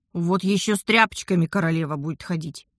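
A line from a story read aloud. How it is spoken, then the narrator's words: Grumbling. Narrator (Russian): проворчала я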